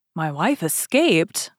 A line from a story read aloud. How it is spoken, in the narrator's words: cried Bonacieux